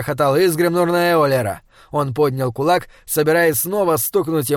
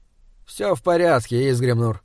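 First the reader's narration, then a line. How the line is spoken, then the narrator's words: Weary. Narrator (Russian): устало сказал Эулер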